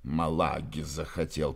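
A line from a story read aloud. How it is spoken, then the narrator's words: Grumbling, almost aloud. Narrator (Russian): проворчал он чуть не вслух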